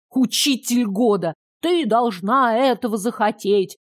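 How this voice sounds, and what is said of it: Sarcastic mocking imitation of the teacher. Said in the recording (Russian): “Передразнила язвительным тоном.”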